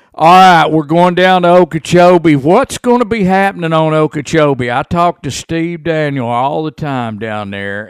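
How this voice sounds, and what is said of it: Southern American accent. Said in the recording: “you've got that Chattanooga accent going on”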